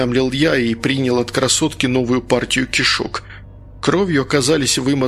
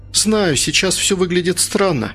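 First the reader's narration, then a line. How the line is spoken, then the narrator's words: Sighing girl. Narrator (Russian): вздохнула девушка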